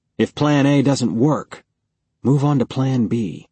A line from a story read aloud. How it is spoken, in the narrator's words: Leon scowling and muttering